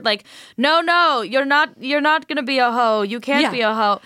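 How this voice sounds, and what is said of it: Put-on European blend accent. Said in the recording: “my like Euro blend accent for no reason”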